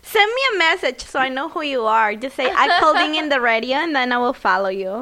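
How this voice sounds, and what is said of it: Sexy accent. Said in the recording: “that sexy accent of hers”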